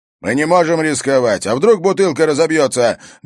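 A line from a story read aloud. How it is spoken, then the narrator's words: Barking over traffic noise. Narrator (Russian): гаркнул Харри уже с платформы грузовика, пытаясь перекричать шум транспорта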